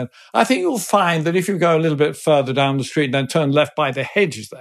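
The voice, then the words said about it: Posh upper-class English accent. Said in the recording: “rather posh house ... he did the accent ... he gave this wonderful impersonation”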